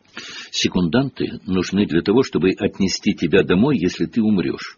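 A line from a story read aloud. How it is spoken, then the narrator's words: Calm casual remark. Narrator (Russian): спокойно заметил Рон, словно говорил о какой-то ерунде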